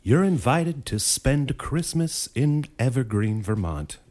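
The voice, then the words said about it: Hallmark movie narrator voice. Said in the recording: “you can do a cool voice... my Hallmark voice”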